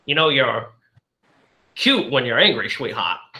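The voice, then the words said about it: Bad Humphrey Bogart impression. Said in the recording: “he gives like the worst Humphrey Bogart impression that you ever heard in your life”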